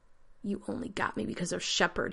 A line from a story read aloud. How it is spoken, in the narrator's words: he croaked